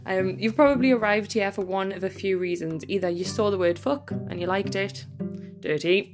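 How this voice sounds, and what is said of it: Northeast England Newcastle accent. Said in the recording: “I'm based in the northeast of England in sunny Newcastle, so if my accent seems weird, that's because it probably is a bit to most people.”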